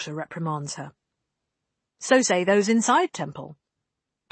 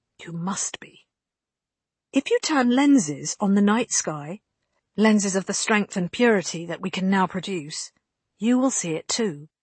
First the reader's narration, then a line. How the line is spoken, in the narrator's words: Bianca explains calmly